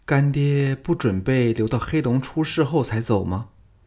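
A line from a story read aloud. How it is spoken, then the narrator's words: Sighing. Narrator (Chinese): 邹衍 叹说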